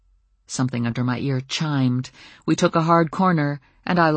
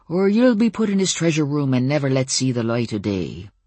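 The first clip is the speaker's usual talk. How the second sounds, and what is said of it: Murmured fake pirate accent. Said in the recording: “I murmured in a fake pirate accent”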